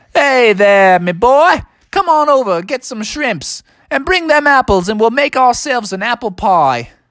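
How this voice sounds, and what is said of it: Put-on Australian accent. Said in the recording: “your Australian accent sure is awesome”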